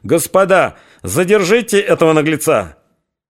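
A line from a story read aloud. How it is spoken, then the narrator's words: Shout. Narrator (Russian): крикнул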